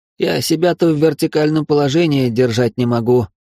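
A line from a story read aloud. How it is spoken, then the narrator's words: Fat man's groan. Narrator (Russian): простонал толстяк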